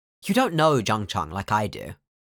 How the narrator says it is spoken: Wei Wuxian says

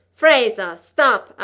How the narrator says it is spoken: I yelled

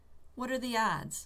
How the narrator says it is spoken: Rodney was saying, smiling nervously

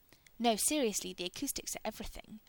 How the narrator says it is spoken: Rodney says, hastily

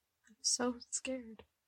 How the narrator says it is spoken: she said, quietly enough that Eddie thought he wasn't supposed to hear it

